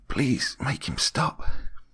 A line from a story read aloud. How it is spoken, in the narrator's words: He whispers